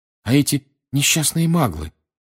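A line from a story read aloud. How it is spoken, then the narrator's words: Agitated speech. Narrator (Russian): взволнованно сказала Гермиона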